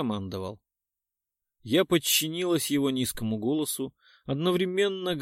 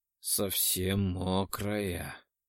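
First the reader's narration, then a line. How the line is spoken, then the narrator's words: Hoarse rasp. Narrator (Russian): прохрипел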